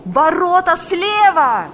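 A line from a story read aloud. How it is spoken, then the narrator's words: Shouted. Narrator (Russian): закричал Валериан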